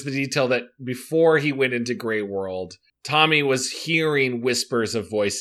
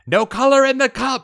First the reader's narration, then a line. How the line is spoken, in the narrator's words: a boy shouted